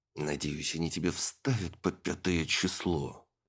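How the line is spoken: Hissed into ear. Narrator (Russian): прошипел хозяин в ухо подопечной

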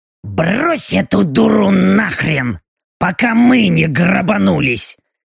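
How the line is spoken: Exasperated sharp bark. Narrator (Russian): Не выдержав, рявкнула Белочка

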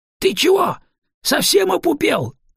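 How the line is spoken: Yelled. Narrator (Russian): заорали на него

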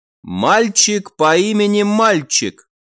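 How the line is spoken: Short chuckle. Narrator (Russian): хохотнул Себастьян

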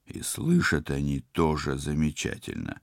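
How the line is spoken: Hiss. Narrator (Russian): прошипел Тед

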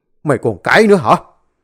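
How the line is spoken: Loud shout. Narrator (Vietnamese): bố nó quát lớn

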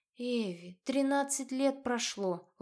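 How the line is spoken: Sad, smiling. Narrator (Russian): Лоренция печально улыбнулась

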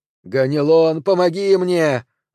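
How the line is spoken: Scream. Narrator (Russian): закричала Медея

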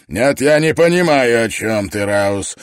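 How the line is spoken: Barked. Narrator (Russian): рявкнул МакКетчни

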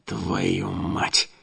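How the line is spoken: Hissed curse. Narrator (Russian): зашипел я

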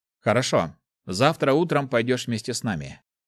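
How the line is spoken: Calm. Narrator (Russian): он спокойно сказал

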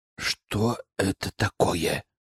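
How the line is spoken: Whispered question. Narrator (Russian): шепотом спросил Искар

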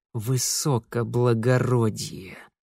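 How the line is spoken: Hissed through teeth. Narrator (Russian): сквозь зубы прошипел Митя

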